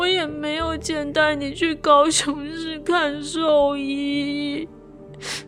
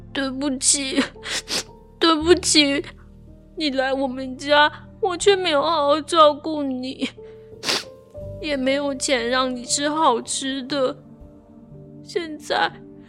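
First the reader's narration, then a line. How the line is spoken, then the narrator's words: Crying. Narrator (Chinese): 我哭着说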